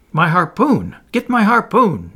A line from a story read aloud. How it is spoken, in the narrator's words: Ned Land exclaimed